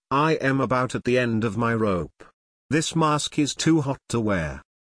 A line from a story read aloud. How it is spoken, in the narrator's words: Lacking any pretense of playfulness, Pavel sighs deeply and says flatly